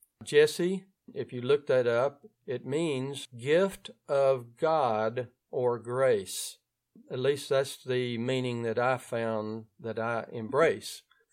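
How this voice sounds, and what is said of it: North Louisiana accent. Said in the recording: “If you're hearing my accent, it means that I'm coming from the area of North Louisiana called Ouachita Parish”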